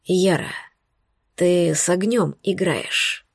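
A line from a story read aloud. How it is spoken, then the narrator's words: Hoarse warning. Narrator (Russian): предупредил он окончательно охрипшим голосом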